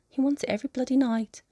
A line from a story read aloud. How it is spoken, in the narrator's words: they would say, sighing like it was the worst thing in the world